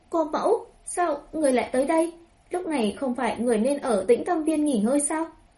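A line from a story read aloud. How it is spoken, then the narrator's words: Shocked, trembling voice. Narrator (Vietnamese): Tống Thi Linh mở to mắt, môi run rẩy nói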